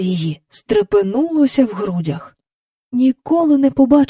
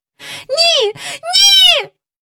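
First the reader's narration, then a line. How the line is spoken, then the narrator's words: Cried out. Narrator (Ukrainian): скрикнула Джейн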